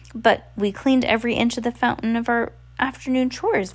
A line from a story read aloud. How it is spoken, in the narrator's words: Violet said